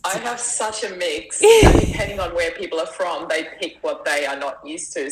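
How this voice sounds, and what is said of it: Mixed Austrian and Australian accent. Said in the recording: “There's an accent and I don't know what it is ... my accent is all the way from Austria ... it wasn't English. It's not English, but like, it was Australian or New Zealand ... Australians always hear my Austrian accent, and everywhere else I go, I get Australian”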